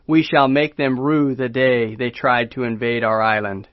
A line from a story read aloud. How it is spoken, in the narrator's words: flatly vetoed the proposal, adding